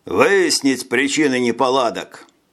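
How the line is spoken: Calm commanding tone. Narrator (Russian): Гоппо отдал приказ невозмутимым командирским тоном

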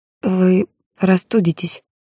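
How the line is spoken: Hoarse. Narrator (Russian): почему-то хрипло сказала я

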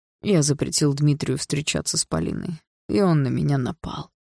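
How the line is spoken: Hoarse reply. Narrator (Russian): хрипло ответил Андрей

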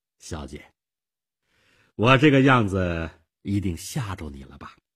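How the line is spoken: Forced smile. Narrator (Chinese): 妮可 勉强地笑笑

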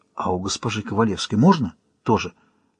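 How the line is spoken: Hesitant quiet question. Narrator (Russian): милиционер замялся и спросил тихо

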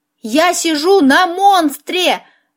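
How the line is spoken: Yelled. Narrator (Russian): заорал

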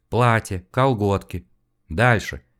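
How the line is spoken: Calm command. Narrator (Russian): спокойно приказал мужчина

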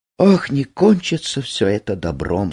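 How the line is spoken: Sad, to herself. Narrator (Russian): сказала себе женщина, глядя печально

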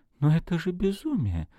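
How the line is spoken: Whispered. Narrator (Russian): прошептала Нина Георгиевна

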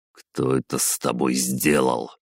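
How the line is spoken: Muttered. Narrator (Russian): пробормотал я

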